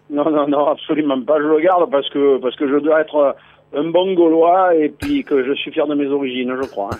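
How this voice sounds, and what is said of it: Southern French accent, Provence. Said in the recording (French): “Le Mont Ventoux, Carpentras ... ils perdent leur accent et ils prennent cette espèce de petit accent américano-canadien. Euh, pas toi.”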